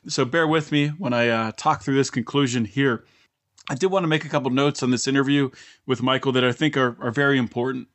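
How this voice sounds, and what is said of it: Scratchy, partly lost voice. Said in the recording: “my voice is a little bit scratchy ... lost my voice”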